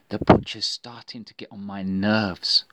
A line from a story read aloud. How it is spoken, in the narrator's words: whispered to her friends